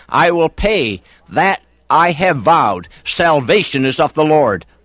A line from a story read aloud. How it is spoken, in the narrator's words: he cried